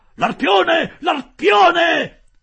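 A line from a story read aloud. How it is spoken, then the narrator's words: Shouted. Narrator (Italian): gridò Ned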